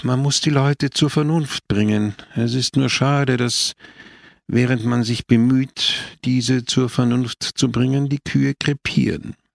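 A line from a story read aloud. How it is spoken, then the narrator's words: Sighing. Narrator (German): seufzte Don Camillo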